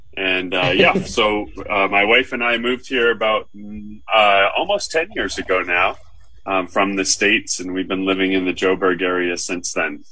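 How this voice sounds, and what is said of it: American accent. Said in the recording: “that isn't a Karoo accent ... I guess living 40 years in the States has stuck with me, at least in the accent.”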